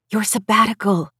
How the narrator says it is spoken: she whispered

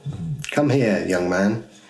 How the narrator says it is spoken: he beckoned Robert calmly

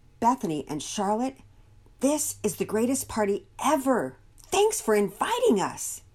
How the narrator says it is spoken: Emily Johnson exclaimed

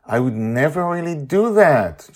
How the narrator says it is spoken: Charlie exclaims

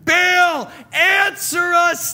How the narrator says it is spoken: they shouted

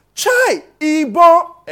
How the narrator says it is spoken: somebody then shouted

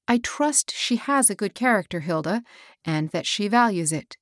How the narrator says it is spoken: said

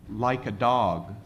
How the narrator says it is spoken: he said

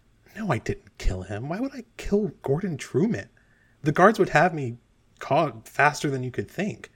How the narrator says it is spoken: Blythespine just quietly looks at you and goes

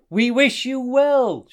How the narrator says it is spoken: shouted the animals that had gathered along the shore

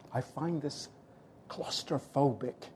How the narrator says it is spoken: I declared, in the hushed tone

